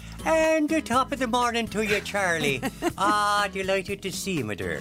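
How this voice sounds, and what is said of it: Put-on Irish accent. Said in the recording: “You sound like a leprechaun. ... You've totally gone Irish on me.”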